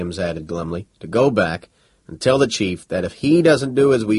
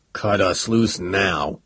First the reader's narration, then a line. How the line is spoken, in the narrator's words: growled Tubal, his blood running cold